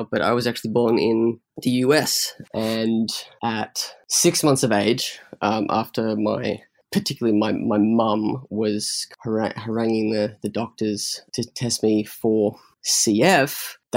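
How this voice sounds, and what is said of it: Typical Australian accent. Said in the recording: “my accent, which sounds very sort of typical Australian now”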